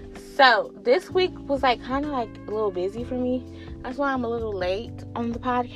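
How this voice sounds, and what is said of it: Usual voice. Nothing is said of it.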